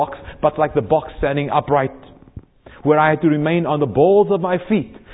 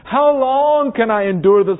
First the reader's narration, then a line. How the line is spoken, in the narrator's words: I cried to God